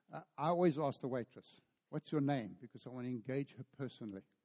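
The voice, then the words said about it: South African accent. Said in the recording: “where are you from? Because of the accent. ... we're actually from South Africa”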